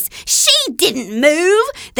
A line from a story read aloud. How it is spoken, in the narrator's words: cried out